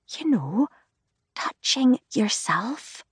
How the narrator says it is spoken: she whispers

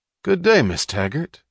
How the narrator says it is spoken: he said happily

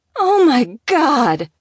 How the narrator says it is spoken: She wailed

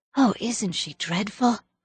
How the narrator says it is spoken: gasped Diana

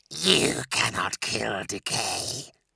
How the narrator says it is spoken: hissed the voice

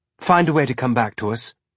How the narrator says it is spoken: she said

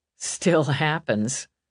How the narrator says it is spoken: Mal muttered, but with a smile

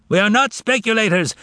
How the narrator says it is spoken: shouted various offended parties from the floor

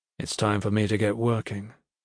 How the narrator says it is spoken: he said softly

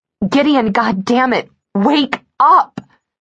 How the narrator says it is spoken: My scream broke through the nightmare

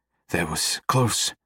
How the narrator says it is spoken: he pants

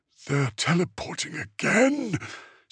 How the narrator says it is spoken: Sistriel rasped

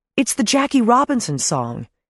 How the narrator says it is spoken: he shouted

